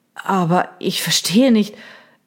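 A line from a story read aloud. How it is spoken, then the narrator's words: Stammering. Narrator (German): stammelte Reynolds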